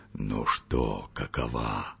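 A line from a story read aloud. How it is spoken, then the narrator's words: Whisper. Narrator (Russian): шепнул Григорию Александровичу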